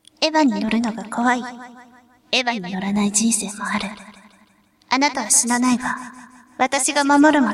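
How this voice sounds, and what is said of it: Imitated anime character voice. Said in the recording (Japanese): “今度は綾波レイちゃんの。 ... 似てるかどうかわかんないです ... モノマネの方 ... 似てないかもしれないですけど”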